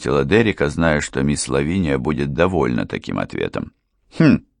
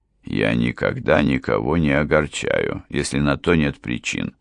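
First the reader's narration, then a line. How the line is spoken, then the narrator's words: Dry remark. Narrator (Russian): сухо заметил баронет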